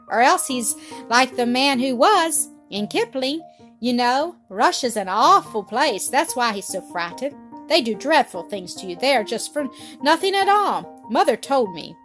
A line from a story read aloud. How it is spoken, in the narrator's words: cried Peter